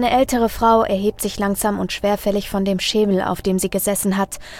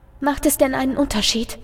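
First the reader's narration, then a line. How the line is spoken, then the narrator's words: Quiet voice. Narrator (German): lässt sich eine leise Stimme vernehmen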